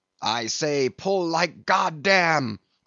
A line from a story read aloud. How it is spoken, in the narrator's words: cried the Indian